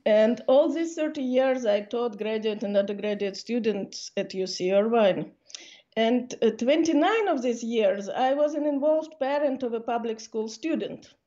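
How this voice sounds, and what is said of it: Noticeable foreign accent. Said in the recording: “listening to me, you probably think that I'm a recent immigrant ... the accent never goes”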